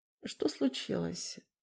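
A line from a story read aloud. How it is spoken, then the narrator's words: Sleepy question. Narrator (Russian): спросил Вейдемани с сонным голосом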